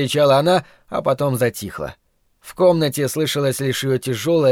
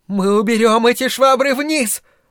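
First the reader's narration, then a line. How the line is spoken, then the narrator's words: Mother shouting. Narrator (Russian): выкрикнула его мать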